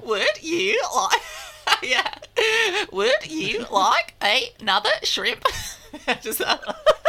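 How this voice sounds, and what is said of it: Robotic Australian accent, upward inflection. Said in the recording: “upwards inflection ... Always talk with an upwards inflection ... You sound like an Australian automaton.”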